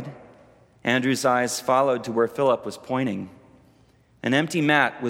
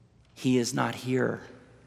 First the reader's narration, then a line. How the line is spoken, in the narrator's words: Philip replied, still whispering